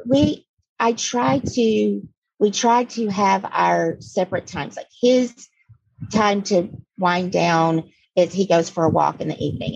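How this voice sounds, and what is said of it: Hoarse, froggy voice. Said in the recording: “I'm very allergic to Florida. So excuse my voice. I'm working with a frog in my throat all the time.”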